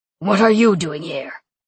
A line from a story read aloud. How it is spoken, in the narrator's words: He growled